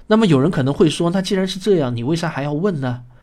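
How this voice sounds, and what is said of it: Regional accent, merges retroflex sounds. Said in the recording (Chinese): “听不惯我口音的人 ... 还是很希望听到我能够分清楚平翘舌”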